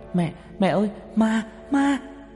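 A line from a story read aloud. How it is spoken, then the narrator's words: Loud frantic screaming. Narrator (Vietnamese): hét toáng lên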